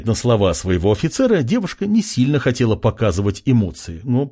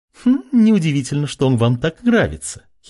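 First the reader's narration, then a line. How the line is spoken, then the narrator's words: Giggling. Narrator (Russian): хихикнула шатаночка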